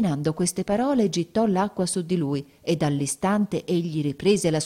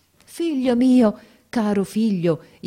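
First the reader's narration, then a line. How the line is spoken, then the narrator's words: Joyful exclamation. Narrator (Italian): esclamai con un trasporto di gioia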